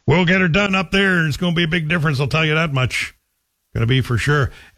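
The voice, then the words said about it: Put-on rural local Ontario accent. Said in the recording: “I'm doing my Manitic accent because that's how I remember it being told to me.”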